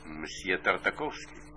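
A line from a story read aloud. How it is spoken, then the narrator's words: Quiet voice. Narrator (Russian): ответил ему Беня тихим голосом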